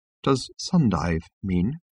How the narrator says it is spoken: said Trillian in a small, quiet voice

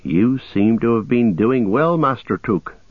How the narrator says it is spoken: said Merry

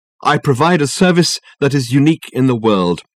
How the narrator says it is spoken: said Dirk

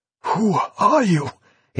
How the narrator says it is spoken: he managed to gasp

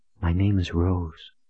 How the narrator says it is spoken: she breathed in her breathy voice

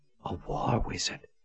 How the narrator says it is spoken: she whispered in astonishment

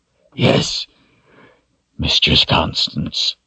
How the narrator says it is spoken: he whispered hoarsely

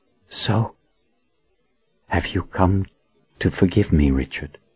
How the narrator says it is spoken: His words came softly, but with great resolve

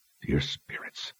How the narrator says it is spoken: Richard breathed

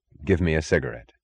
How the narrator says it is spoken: said

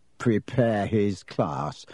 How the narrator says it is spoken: Ron sneered after him

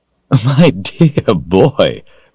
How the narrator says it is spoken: Rawl laughed

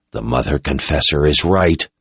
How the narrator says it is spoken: growled under her breath

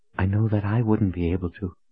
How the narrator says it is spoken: she whispered, almost to herself

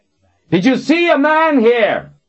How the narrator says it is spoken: yelled

